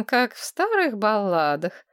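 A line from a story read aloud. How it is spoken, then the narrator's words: Snide, smiling. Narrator (Russian): ехидно улыбнулась Маргарет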